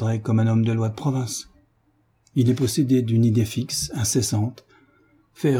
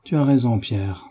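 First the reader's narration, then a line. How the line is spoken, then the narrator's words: Sad speech. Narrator (French): reprit tristement David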